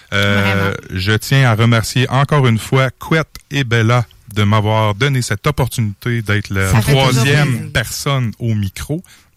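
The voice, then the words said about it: Put-on Spanish accent in French. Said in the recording (French): “T'es en train de parler avec un accent espagnol? ... j'adore faire mon petit Taco”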